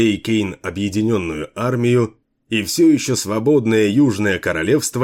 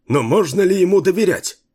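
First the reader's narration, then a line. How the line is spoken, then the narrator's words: Alarmed exclamation. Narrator (Russian): воскликнул, узнав об этом, полковник Алайн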